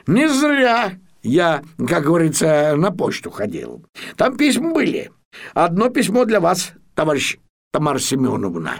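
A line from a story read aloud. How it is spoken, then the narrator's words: Joyful announcement. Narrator (Russian): Печкин радостно сообщил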